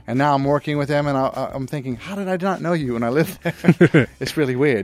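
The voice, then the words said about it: Mixed transatlantic London-Midwestern accent. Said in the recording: “mix-mash accent that you have ... the transatlantic London Midwestern accent.”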